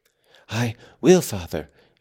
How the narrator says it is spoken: he panted

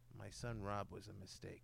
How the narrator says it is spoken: he whispered to me, seriously, he said

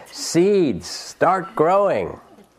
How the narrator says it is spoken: Toad shouted

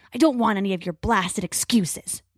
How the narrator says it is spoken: Crow snarls

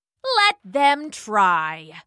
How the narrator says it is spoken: roared Achilles

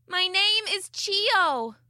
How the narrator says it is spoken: she shouted into my ears

